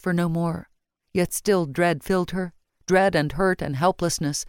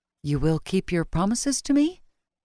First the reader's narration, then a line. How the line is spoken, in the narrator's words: Her voice sounded more uncertain than she wished, full of longing for what she could not have